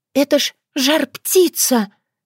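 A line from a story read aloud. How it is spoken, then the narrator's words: Breathless exclamation. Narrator (Russian): выдохнула сударыня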